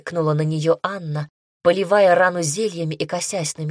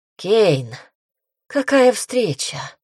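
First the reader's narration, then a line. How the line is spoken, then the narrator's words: Hoarse smirk. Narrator (Russian): хрипло усмехнулась племянница директрисы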